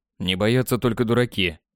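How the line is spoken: Calm reply. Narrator (Russian): спокойно ответил

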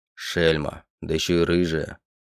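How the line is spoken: Muttering man. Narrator (Russian): Пробормотал мужчина

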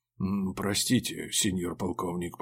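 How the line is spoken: Muttered. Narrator (Russian): пробормотал он

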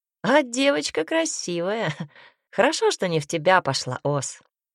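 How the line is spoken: Chuckling cowboy. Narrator (Russian): хохотнул ковбой

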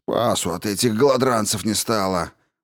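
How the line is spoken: Guard grumbling angrily. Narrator (Russian): проворчал стражник, со злостью

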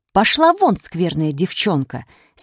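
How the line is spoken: Angry mother. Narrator (Russian): сердито сказала мать

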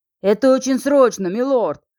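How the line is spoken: Servant's shout. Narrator (Russian): закричал слуга

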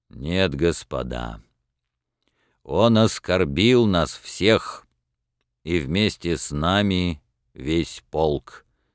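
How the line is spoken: Deep, resolute bass. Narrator (Russian): сказал своим густым решительным басом майор Кожин

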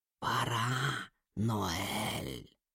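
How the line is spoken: Whisper. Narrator (Russian): прошептал голос

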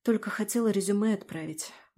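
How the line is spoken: Sigh. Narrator (Russian): вздохнула я

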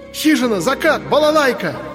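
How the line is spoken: Yelled. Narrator (Russian): завопил Андрей

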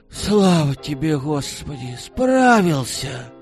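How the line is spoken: Weary exhale. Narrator (Russian): Устало выдохнул Михалыч

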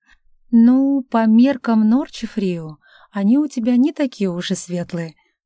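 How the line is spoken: Plain. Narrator (Russian): ответил Анг

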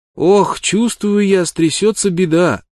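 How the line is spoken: Child's plaintive call after someone. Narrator (Russian): жалобно крикнул ему вдогонку малыш

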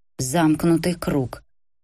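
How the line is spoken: Muttering. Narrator (Russian): бормотал Дынко

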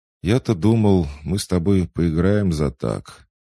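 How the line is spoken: Disappointed sigh. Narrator (Russian): вновь разочарованно вздохнул Марк

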